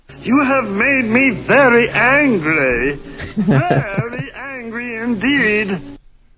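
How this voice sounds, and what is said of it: Emery impersonation. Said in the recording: “I love the Emery impersonation. ... I'm terrible at impersonations.”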